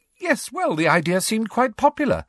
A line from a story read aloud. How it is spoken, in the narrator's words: said Hermione happily